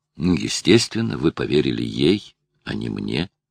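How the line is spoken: Calm. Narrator (Russian): спокойно сказала Мариан

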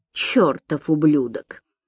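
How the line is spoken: Muttering. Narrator (Russian): пробормотал Гарри Берг

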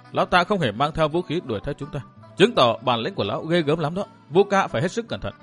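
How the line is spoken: Soft. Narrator (Vietnamese): Đinh Hương cũng khẽ nói

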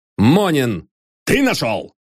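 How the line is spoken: Shouted. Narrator (Russian): крикнул пристав

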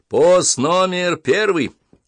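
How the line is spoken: Loud old man. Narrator (Russian): громко говорит старый часовой

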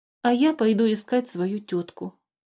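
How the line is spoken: Sad reply. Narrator (Russian): печально отозвался Мимикр

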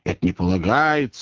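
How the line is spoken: Muttering. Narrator (Russian): бормотал

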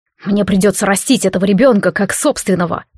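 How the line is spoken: Grumbled. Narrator (Russian): проворчал Харальд

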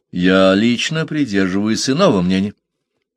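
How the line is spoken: Calm objection. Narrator (Russian): спокойно возразил Парсел

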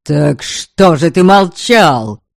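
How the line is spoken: Angry bark. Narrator (Russian): рявкнул он

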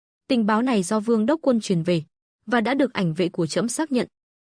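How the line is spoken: Cold reply. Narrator (Vietnamese): Hạ Hoàng lạnh lùng đáp

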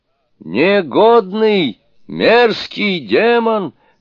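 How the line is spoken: Yelled. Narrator (Russian): заорал Суню-кун

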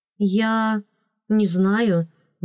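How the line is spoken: Quiet stunned squeeze. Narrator (Russian): выдавила тихо, офигевая от услышанного

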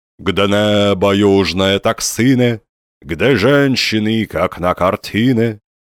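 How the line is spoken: Muffled nostalgic sigh, old machine. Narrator (Russian): неуклюже видавший виды чугунный компостер глухо вздыхал о невозвратном времени

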